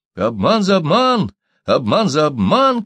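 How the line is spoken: Crowd shouting. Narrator (Russian): кричали гольды

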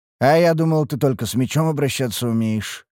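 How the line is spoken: Snorting. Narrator (Russian): хмыкнул я

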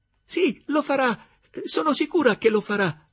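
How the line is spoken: Enthusiastic exclamation. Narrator (Italian): esclamò Gertrude con entusiasmo

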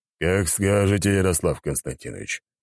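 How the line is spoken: Grumbled. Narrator (Russian): проворчал Аршавин

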